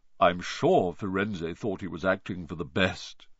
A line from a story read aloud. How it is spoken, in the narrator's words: he said in his gloomy voice